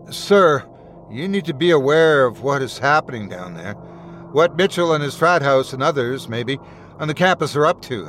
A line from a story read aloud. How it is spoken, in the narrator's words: I said